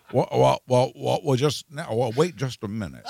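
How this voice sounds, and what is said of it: Imitates another person's voice. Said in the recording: “It was really good. It was a good Jimmy Stewart impression.”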